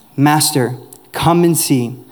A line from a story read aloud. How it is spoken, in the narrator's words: they said